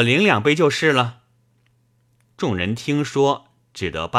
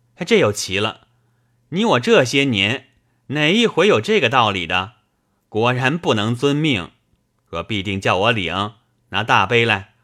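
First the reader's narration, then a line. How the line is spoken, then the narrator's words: Laughing. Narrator (Chinese): 冯子英笑道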